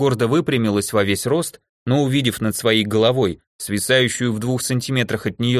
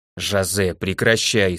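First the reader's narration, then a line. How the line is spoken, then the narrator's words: Stern elder's voice. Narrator (Russian): строго сказала старшая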